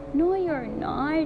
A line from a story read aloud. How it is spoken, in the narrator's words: Sally sobbed